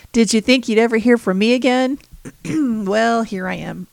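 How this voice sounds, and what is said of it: Hoarse, strained voice. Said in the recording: “losing my voice. ... if I can talk”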